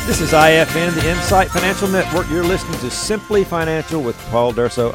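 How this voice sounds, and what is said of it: Smooth soothing radio announcer voice. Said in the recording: “You got the radio voice thing going on right now... You're soothing me over here. I am being soothed over here.”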